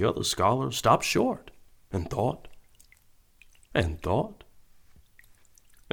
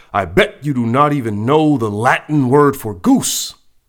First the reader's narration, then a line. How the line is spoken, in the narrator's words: One of the scholars yelled